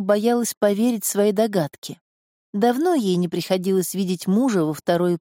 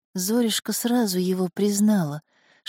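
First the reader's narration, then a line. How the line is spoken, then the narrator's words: Whisper. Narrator (Russian): шептала Зула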